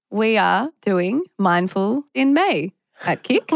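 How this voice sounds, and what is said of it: Flat robotic delivery. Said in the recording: “I don't know why I sounded like a robot.”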